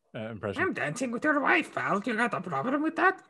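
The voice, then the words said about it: Poor cartoon villain impression. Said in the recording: “That was a horrible impression. ... That was worse.”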